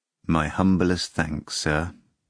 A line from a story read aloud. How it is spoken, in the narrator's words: the man replied just as mournfully